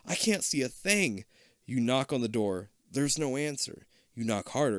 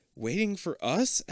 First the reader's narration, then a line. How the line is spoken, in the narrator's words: Abby stammers